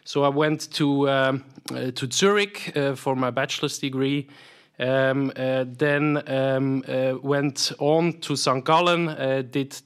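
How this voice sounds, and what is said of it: Swiss accent in English. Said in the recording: “as you hear from my accent, I'm, I'm, I'm Swiss”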